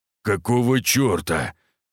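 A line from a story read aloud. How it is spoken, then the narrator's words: Muttered. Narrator (Russian): пробормотал Костолом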